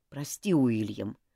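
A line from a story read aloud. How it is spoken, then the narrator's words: Grumpy mutter. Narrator (Russian): буркнул он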